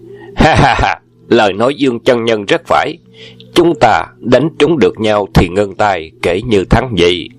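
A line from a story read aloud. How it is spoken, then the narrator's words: Hearty laughing agreement. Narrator (Vietnamese): Đoàn Hoàng gia và Hoàng Dược Sư đồng cười lớn, tán đồng và nói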